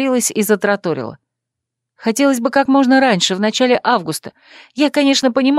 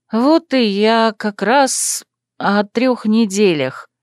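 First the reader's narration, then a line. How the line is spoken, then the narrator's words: Uncertain mumble. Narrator (Russian): промямлила я, не зная, как закончить фразу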